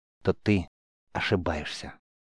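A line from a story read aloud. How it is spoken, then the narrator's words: Fervent whisper. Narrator (Russian): с жаром прошептал Рис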